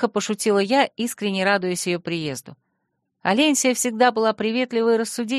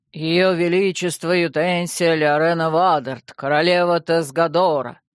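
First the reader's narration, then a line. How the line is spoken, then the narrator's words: Sudden bass shout. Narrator (Russian): Неожиданно прокричал он басом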